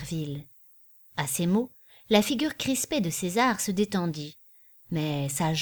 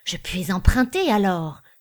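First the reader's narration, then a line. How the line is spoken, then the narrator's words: Perfumer exclaiming. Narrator (French): s'écria le parfumeur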